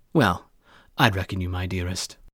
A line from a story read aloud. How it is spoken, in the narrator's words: Kory answered